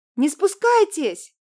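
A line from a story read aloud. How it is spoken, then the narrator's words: Shouted. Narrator (Russian): крикнула Марина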